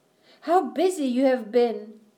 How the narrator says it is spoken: the twins exclaimed

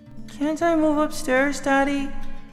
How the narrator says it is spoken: asked sleepily

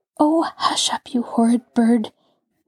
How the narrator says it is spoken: Nancy murmured in an undertone as she scowled at the bird

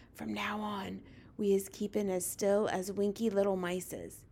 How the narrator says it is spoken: he whispered

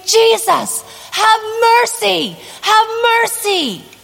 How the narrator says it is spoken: screaming

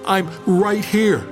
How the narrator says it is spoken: yelled

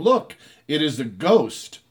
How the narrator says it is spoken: they cried out in fear

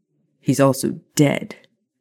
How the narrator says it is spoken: Maya snarled

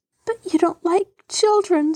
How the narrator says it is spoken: sobbed Mary

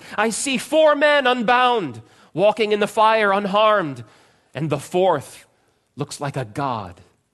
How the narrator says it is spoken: Nebuchadnezzar shouted

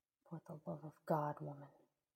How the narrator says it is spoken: he growled

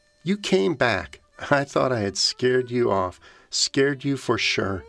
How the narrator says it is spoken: laughs, and she says

